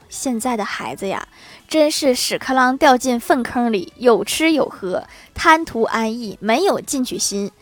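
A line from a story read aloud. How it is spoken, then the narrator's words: Sighing father. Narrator (Chinese): 老爸感叹道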